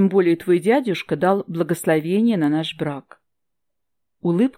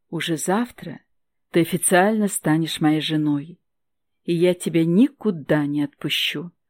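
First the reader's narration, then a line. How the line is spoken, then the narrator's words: Whisper in ear. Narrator (Russian): прошептал Стивен ей на ухо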